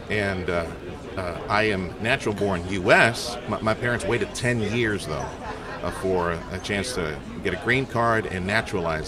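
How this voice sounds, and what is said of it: Slight foreign accent. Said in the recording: “You have a little accent, but not too much.”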